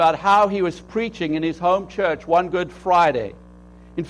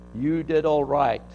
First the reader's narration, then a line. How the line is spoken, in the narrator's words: said